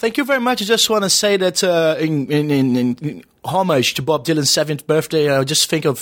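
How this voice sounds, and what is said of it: Usual voice. Nothing is said of it.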